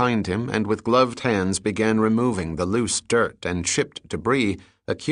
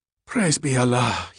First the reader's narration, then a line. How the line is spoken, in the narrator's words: he gasped